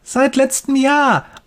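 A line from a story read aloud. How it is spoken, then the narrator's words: Excited boy calling. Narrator (German): ruft der Junge begeistert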